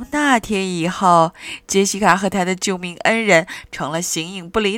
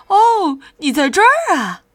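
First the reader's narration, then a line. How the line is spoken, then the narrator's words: Surprised exclamation. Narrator (Chinese): 他一见到那只鸡就惊叫起来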